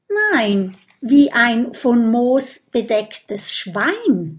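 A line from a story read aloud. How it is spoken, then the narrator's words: Plain. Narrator (German): sagt Oskar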